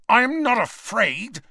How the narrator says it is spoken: snarled Malfoy

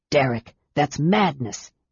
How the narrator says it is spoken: Aaron hissed

